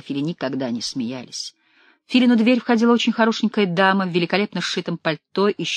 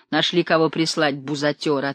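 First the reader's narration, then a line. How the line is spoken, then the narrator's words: Amused reply. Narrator (Russian): отвечал Филя, смеясь одними щеками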